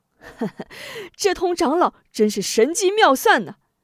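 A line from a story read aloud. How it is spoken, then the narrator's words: Laughing. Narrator (Chinese): 李章笑道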